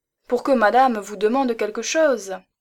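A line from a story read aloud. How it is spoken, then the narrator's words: Exclaimed. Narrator (French): s'écria Stidmann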